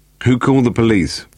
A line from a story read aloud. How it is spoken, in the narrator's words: Vosper asked